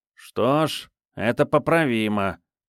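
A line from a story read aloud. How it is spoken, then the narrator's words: Nasal voice. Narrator (Russian): прогнусавил некромант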